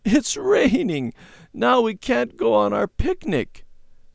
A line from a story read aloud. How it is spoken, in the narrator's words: she sobbed